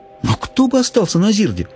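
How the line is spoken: Indignant girl's exclamation. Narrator (Russian): возмущенно воскликнула девушка

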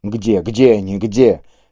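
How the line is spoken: Barely audible muttering, then crying out. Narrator (Russian): То едва слышно бормотал, то вскрикивал он

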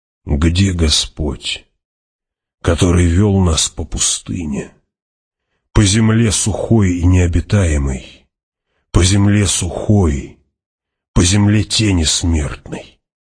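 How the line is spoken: Mumbled. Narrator (Russian): пробормотал он

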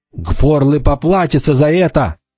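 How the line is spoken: Furious young woman's shout. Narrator (Russian): яростно закричала девушка

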